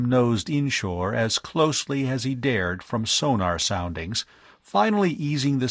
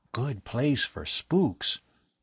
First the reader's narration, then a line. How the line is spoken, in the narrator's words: Bud whispered jokingly